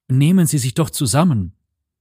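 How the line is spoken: Called out. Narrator (German): rief ich

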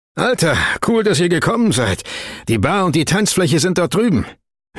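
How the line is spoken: Yelling. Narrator (German): hörte Amelie ihn brüllen

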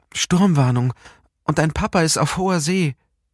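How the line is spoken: Worried sigh. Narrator (German): seufzte Jenny Blom besorgt

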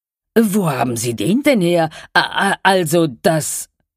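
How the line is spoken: Stuttering. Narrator (German): stotterte Herr Paulsen

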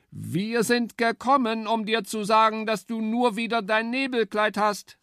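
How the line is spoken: Calling out. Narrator (German): rief Specht

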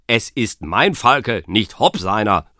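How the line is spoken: Angry shout. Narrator (German): rief wütend

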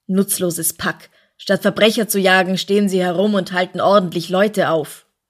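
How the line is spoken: Unspoken, suppressed complaint. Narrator (German): Laut wagte er seine Beschwerde nicht vorzutragen

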